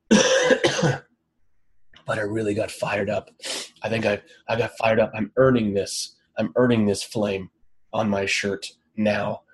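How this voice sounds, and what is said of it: Strained, nearly lost voice. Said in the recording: “lose my voice from yelling”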